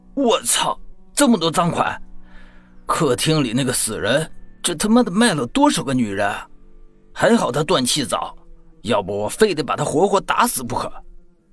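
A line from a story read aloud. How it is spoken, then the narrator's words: Angry roar. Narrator (Chinese): 发出了一声怒吼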